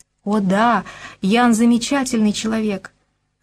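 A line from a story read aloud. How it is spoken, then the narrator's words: Joyful confirmation. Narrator (Russian): радостно подтвердила Зося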